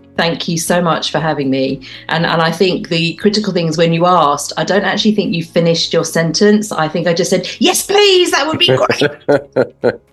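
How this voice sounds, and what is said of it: English accent. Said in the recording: “I'm the one with the accent, but I love the way you talk ... my accents tend to change ... you definitely got the English version today”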